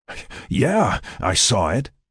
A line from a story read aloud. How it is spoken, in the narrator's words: Jack panted